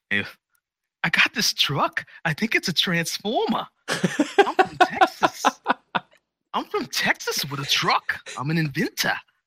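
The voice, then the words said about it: Mark Wahlberg impression, Boston accent. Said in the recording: “Mark Wahlberg, with his Boston accent,”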